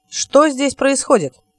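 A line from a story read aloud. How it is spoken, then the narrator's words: Loud question. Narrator (Russian): громко спросил Локсли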